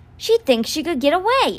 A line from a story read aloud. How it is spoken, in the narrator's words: exclaimed Constance